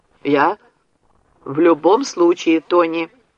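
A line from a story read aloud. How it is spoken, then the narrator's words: Commanding. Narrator (Russian): приказным тоном, который она почти никогда не употребляла в разговоре с сыном, сказала Люси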